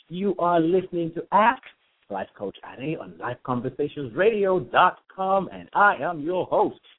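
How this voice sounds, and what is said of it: Put-on radio announcer voice. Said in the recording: “This is my radio voice. ... Why am I fronting? Why am I faking it?”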